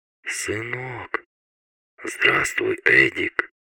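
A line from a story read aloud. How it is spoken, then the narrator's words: Hoarse speech. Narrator (Russian): хрипло произнес он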